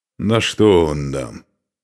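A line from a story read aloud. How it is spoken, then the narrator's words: Displeased grumble. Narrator (Russian): недовольно проворчал Устах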